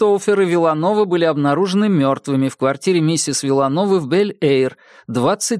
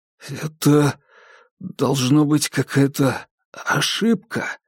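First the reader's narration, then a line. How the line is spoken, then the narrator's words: Hoarse. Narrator (Russian): сказал он сипло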